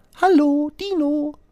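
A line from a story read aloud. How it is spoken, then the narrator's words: Chirping robin. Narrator (German): piepst das Rotkehlchen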